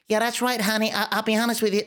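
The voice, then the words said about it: Attempted American accent. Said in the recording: “you almost have an American accent ... the best attempt at an American accent you are going to get on this podcast today ... attempt to do the American accent”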